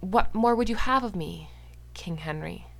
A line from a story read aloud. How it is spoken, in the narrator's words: His voice was all patient enquiry, as if they were debating his dinner instead of, perhaps, his death